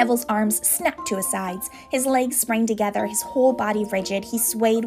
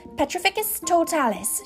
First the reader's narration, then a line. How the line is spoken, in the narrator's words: she cried